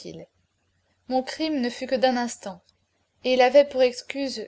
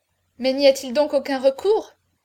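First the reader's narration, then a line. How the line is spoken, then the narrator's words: Desperate cry. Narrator (French): s'écria la princesse, qui sentait sa fille faiblir dans ses bras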